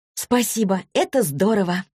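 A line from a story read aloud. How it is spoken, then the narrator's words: Exclaiming. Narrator (Russian): воскликнула Василиса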